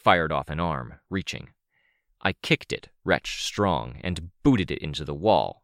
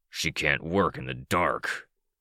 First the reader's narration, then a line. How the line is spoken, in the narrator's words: Cryptid growled